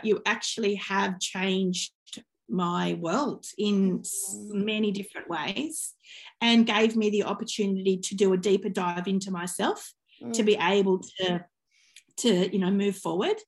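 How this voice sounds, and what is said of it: Teary, emotional voice. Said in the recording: “I think we're both getting a bit teary.”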